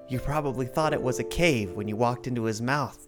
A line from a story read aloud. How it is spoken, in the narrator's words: said and sighed